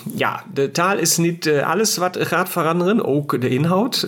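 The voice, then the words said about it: Cute German accent in Dutch. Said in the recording (Dutch): “met een schattig Duitse accent ... het Duitse accent”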